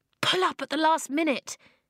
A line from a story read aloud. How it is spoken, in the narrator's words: she panted